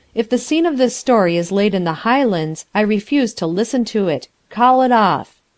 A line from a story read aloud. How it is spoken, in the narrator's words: I said firmly